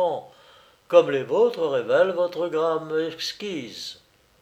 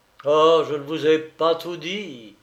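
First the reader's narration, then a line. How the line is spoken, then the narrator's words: Pained, mysterious exclamation. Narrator (French): s'écriait, d'un ton à la fois empreint de douleur et de mystère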